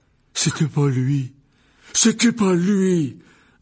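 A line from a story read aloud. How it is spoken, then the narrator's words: Young man roaring. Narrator (French): rugit le jeune homme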